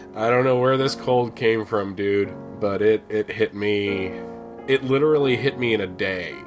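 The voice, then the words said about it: Deep, rough voice with a cold. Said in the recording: “we're both quite under the weather at the moment ... my voice is... I apologize for sounding a bit like Barry White at the moment”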